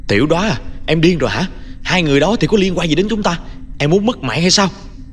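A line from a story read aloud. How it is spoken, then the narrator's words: Angry shouting. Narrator (Vietnamese): Anh ta hét lên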